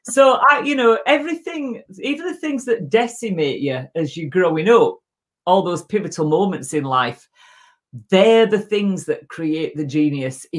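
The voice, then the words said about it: Distinctive accent. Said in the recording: “I shouldn't speak with this voice... freaking accent.”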